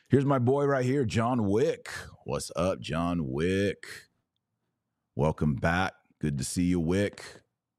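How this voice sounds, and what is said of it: Raspy voice. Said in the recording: “my voice is raspy, because I've been talking for hours and hours and hours”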